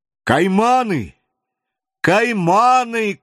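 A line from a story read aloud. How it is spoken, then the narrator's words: Shout. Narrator (Russian): крикнул Вильсон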